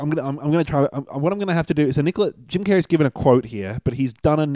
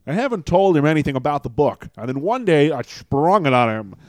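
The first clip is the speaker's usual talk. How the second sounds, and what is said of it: Imitates another person's voice. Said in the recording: “I'm gonna do a Jim Carrey impression... Was that your Carrey?... Oh yeah.”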